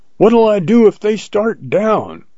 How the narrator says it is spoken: I yelled after him

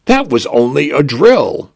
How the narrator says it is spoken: I announce cheerfully

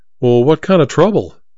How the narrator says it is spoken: Henry sighed

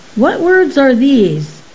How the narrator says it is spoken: Balk exclaimed

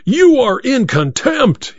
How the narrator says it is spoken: he roared

